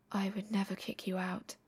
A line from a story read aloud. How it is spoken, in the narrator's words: His pulse starts to hammer, even as he murmurs